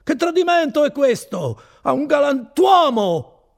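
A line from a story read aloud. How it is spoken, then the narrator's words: Shouting. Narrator (Italian): grida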